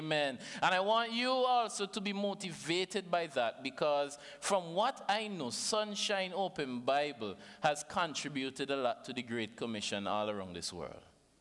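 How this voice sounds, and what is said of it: Vincentian Caribbean accent. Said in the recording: “Everybody understand my accent, right?”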